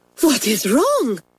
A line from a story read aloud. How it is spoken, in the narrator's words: she cried